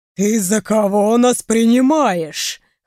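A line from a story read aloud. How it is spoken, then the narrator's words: Dragon chuckle then roar. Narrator (Russian): хохотнул алый дракон и взревел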